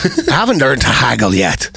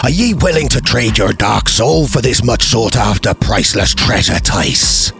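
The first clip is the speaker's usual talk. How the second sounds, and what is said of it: Poor put-on pirate accent. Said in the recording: “your pirate accent is terrible ... Or do a proper pirate voice.”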